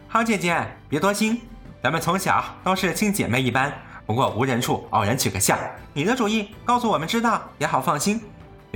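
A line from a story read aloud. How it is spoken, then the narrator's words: Placating, apologetic laugh. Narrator (Chinese): 二人见他急了，忙陪笑道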